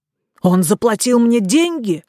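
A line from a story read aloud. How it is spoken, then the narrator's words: Exclaiming in genuine astonishment. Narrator (Russian): воскликнул Кабри с таким натуральным изумлением, словно услышал величайшую нелепость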